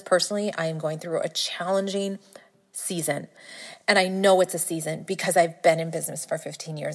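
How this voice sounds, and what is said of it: Slightly teary, emotional voice. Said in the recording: “I'm getting a little teary-eyed here”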